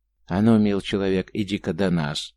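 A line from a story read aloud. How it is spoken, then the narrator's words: Gentle call. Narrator (Russian): ласковым голосом позвал того атаман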